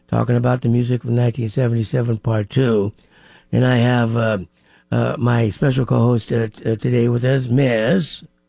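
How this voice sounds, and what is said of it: Slightly raspy voice. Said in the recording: “I'm a little raspy today”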